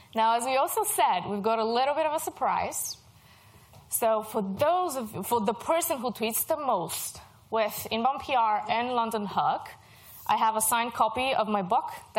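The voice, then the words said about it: Mixed European-influenced English accent. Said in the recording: “I'm Bulgarian. I used to live in Germany. I lived in the UK. I'm based in Ireland, and I work for an American company. So if you're wondering about my accent”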